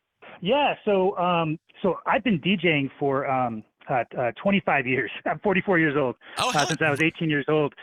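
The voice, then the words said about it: Smooth radio-style voice. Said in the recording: “Great radio voice”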